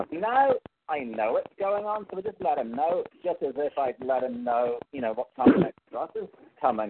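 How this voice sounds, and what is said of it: Irish accent. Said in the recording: “the Irish accent”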